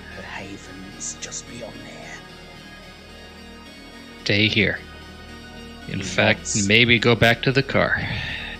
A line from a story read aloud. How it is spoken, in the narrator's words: he whispers